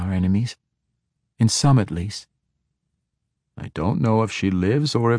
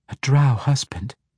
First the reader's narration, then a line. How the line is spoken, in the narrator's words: Kavita whispered